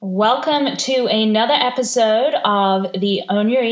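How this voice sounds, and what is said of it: Usual voice. Nothing is said of it.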